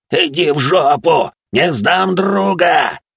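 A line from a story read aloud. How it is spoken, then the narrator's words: Roaring. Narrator (Russian): взревел Жабич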